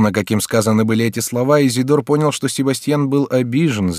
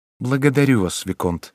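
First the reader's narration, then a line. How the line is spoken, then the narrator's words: Softer tone. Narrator (Russian): отвечал Себастьян более мягким тоном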